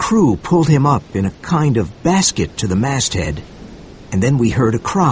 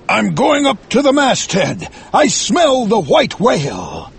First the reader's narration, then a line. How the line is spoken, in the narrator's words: Suddenly, his eyes glowed like fire, and he cried